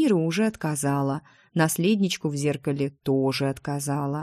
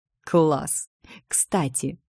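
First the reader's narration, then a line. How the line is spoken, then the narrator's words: Giggling. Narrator (Russian): я хихикнула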